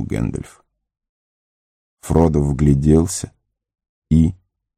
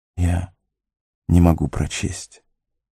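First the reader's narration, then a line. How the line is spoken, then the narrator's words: Barely audible. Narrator (Russian): едва слышно произнес Фродо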